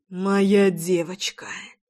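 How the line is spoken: Tender whisper. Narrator (Russian): Ласково зашептал Львовский

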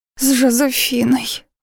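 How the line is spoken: Excited report. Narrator (Russian): взволнованно докладывает Каро

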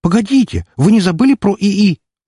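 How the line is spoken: Exclaimed. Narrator (Russian): воскликнула Айша

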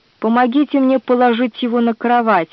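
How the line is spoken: Plain. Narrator (Russian): ответил генерал

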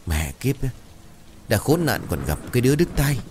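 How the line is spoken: Annoyed soft muttering. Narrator (Vietnamese): Bực mình, bà Sàn lẩm bẩm khe khẽ

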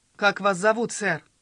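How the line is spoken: Loud question. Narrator (Russian): спросил гипнотизер громким голосом

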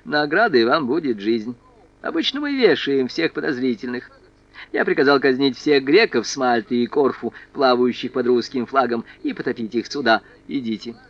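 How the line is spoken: Condescending man. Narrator (Russian): Наполеон снисходительно хмыкнул и добавил

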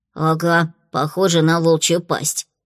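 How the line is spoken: Grumbled. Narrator (Russian): буркнула

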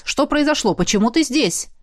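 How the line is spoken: Nearly barking, irritated. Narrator (Russian): Я чуть не рявкнула, потому что генерал дергает меня, как марионетку за ниточки телепорта

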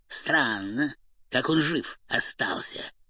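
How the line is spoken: Gloomy. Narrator (Russian): мрачно сказал кот

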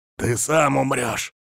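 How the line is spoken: Hissing, voice breaking. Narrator (Russian): прошипел я срывающимся голосом

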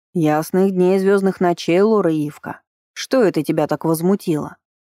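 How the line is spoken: Curious booming drone. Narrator (Russian): прогудела любопытная арчанка

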